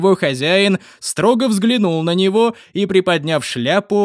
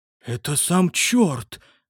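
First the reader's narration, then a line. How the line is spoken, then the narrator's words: Muttering. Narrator (Russian): пробормотал Чарльз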